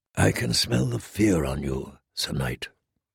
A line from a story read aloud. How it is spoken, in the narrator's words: the Red Woman said softly